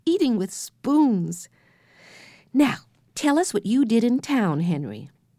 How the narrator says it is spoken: cried Jessie

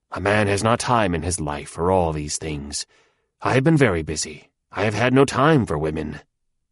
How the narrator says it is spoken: he muttered to himself

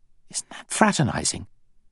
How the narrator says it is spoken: whispered Giles

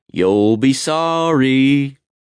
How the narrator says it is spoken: All jeered

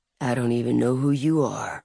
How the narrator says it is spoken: he said softly

